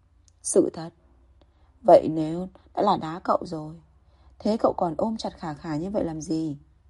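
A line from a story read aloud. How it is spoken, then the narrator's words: Soft irritated snort. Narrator (Vietnamese): Hoắc Tuấn bị chọc đúng cái chân đau, khẽ hừ một tiếng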